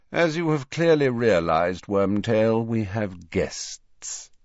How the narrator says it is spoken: said Snape lazily

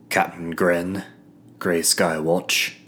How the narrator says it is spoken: grumbled the captain

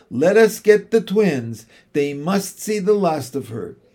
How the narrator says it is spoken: cried Jane

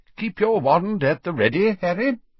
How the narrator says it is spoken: he said brightly

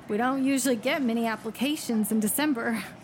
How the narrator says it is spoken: chuckled

